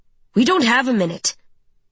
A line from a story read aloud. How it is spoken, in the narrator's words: Ronan snaps